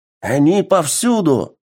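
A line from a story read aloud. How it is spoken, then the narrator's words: Soldier's exclamation. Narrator (Russian): воскликнул один из бойцов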